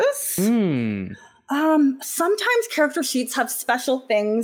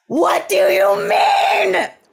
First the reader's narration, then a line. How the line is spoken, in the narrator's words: She screams